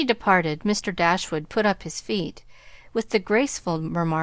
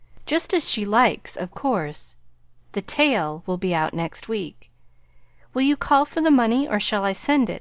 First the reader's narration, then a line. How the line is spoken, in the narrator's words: asked Mr